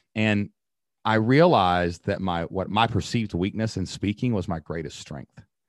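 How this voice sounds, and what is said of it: Kentucky accent. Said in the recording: “the way I talk. My accent, Kentucky”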